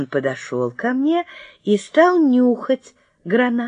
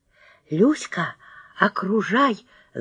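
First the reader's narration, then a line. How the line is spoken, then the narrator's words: Whisper. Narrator (Russian): зашептала я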